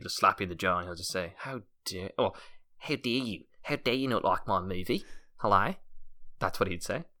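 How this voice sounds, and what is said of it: Put-on New Zealand accent, veering Australian. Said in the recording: “It's veering into Australian. ... I can't do the Kiwi one. ... That was good. ... It was certainly passable. ... for the accent”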